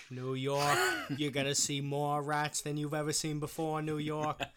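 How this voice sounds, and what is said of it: Boston accent imitating JFK. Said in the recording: “A Boston accent. ... I was trying to be fucking JFK.”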